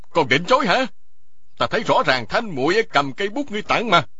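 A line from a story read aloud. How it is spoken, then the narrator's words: Loud shout. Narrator (Vietnamese): Y quát to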